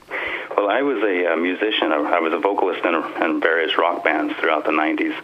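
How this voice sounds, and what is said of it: Non-Irish accent. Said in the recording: “your accent is not Irish”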